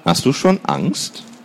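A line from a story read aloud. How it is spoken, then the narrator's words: Sighing. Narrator (German): Lena seufzte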